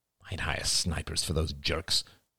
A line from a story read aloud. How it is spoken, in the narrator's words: muttered Ian